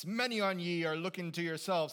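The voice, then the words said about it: Put-on pirate accent. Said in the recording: “The only accent I have is pirate accent”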